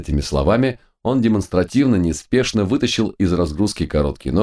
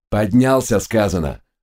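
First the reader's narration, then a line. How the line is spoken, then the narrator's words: Barking. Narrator (Russian): рявкнул Глок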